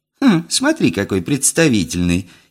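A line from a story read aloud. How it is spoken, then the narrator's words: Giggling. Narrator (Russian): хихикнула та, что с синим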